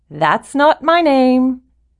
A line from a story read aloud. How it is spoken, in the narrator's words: the mannequin called out